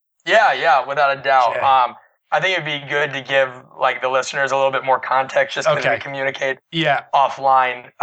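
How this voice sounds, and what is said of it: Raspy, gravelly voice. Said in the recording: “I sound like I have either gargled glass or smoked too much”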